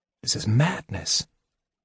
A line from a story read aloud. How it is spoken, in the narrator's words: Eben whispered to Tanis